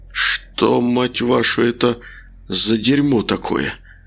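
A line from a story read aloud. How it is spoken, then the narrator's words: Hoarse whisper. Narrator (Russian): прошептал Макар осипшим голосом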